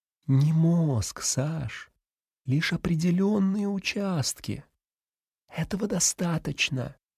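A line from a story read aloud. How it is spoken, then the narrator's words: Quiet, near whisper. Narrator (Russian): произнес он тихо, почти шепотом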